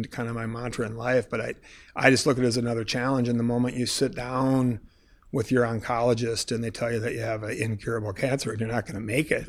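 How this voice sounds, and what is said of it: Choked-up, emotional voice. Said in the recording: “sorry, I'm getting choked up.”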